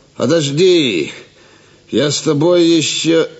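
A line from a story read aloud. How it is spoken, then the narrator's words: Annoyed shout. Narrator (Russian): Раздосадованный Гивис крикнул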